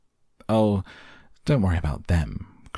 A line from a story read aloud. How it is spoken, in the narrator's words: cried Mr